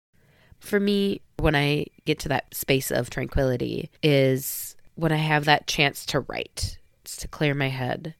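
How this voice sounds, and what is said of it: Sick-sounding voice. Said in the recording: “my voice is a little sick right now”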